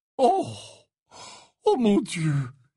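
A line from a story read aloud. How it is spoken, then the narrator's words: Sighing. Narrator (French): soupira Slughorn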